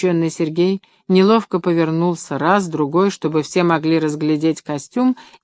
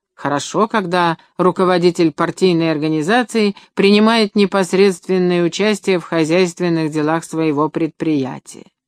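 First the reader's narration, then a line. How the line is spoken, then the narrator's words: Loud public announcement. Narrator (Russian): первый секретарь горкома громко, чтобы слышали все, сказал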